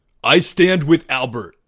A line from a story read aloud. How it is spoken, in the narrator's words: Greg cried out